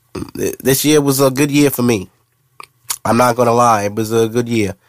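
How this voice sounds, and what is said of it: Sick, congested-sounding voice. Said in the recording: “Sorry for my voice. ... I'm fighting a fake cold right now.”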